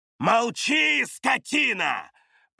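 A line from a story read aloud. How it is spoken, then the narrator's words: Roaring spirit. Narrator (Russian): проревел дух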